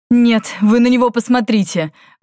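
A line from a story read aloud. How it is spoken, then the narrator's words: Laughing. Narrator (Russian): Валифор рассмеялся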